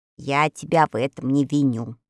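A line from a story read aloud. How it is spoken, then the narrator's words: Calm objection. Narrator (Russian): спокойно возразила волшебница Веллина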